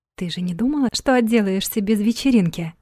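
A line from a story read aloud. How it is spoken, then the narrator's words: Whispered. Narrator (Russian): шепнула Ирка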